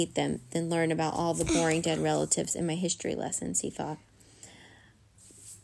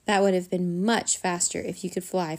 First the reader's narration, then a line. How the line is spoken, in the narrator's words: Flit sighed